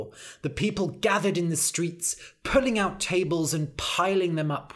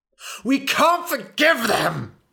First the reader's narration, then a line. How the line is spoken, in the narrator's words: he screamed